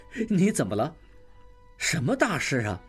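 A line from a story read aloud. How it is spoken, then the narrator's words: Laughing. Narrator (Chinese): 应济醒来笑了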